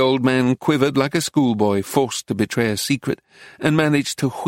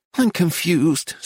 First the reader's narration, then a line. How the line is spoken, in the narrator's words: said in an exasperated tone